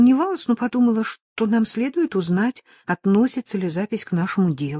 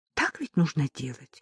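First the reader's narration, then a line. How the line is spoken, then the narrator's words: Embarrassed woman. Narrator (Russian): Произнося последнюю фразу, она вспыхнула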